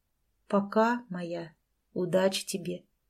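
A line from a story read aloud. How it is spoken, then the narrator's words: Quiet. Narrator (Russian): тихо сказал он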